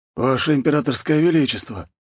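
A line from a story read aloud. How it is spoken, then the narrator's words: Breathless exhale. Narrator (Russian): выдохнул он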